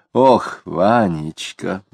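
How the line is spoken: Sighing. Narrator (Russian): вздохнула Тося

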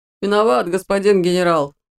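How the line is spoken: Muffled pained moan. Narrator (Russian): простонал тот, зажимая нос рукой

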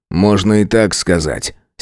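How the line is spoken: Angry. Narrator (Russian): сердито произнес я

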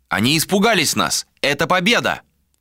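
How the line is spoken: Shouting out. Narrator (Russian): выкрикнул Юстин

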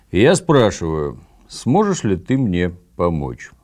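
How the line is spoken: Preachy, moralizing tone. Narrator (Russian): нравоучительно произнес

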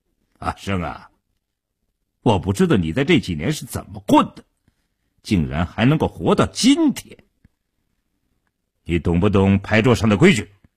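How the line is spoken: Suddenly cold, hostile. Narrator (Chinese): 一直笑容可掬的傻彪当即翻了脸，冷冷地说道

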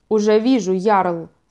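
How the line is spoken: Plain. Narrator (Russian): сказал примарх Йорину

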